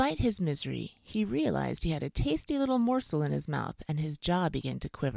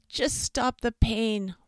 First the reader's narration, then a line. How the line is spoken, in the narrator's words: whimpered the fox, wiping some tears away